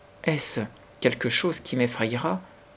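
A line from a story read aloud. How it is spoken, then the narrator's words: Timid question. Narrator (French): demanda-t-elle timidement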